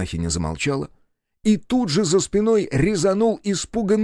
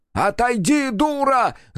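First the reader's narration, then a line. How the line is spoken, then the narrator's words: Shouted. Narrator (Russian): закричал Петр Петрович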